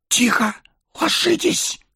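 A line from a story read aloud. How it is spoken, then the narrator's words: Hissing whispered command. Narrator (Russian): свистящим шепотом приказал Арагорн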